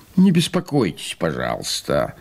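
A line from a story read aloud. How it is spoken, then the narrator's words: Grumbling. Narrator (Russian): проворчал и господин Вольный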